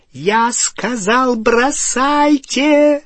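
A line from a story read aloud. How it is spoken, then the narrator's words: Shrieking. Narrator (Russian): провизжала Беллатриса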